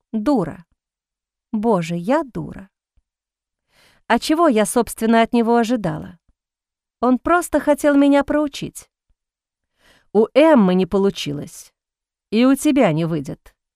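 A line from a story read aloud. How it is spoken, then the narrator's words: Cold statement. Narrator (Russian): холодно произнес Сент-Мор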